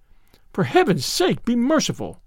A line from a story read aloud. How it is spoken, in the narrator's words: cried the young man